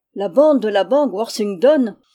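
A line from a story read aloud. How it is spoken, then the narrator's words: Exclaiming. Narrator (French): s'écria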